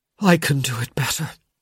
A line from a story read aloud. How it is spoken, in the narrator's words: he gasped